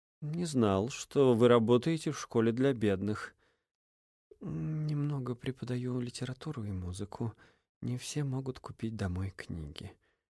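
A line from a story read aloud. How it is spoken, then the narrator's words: Quiet reply. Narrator (Russian): тихо ответила Инесс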